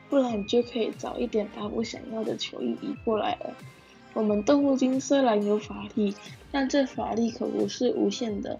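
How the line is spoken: Sighing. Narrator (Chinese): 影木叹口气

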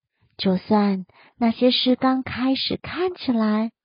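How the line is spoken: Gentle. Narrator (Chinese): 他温柔的说

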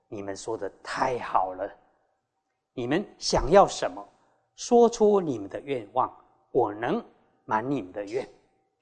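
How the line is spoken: Admiring. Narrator (Chinese): 赞叹七位公主说

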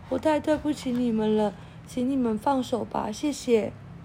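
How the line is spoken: Very softly. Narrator (Chinese): 二号小小声的对他们说

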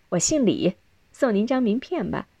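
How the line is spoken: Laughing woman. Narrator (Chinese): 那位女士笑了

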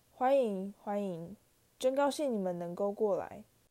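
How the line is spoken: Lamenting. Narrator (Chinese): 他悲叹道

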